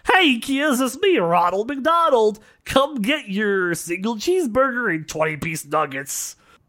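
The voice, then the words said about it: Cartoon mascot character voice. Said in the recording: “that was a good impersonation. ... That was pretty good. ... I was spot on”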